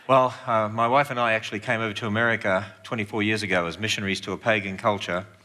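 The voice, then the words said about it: Speaks with a foreign accent. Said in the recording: “You've got to get used to this accent.”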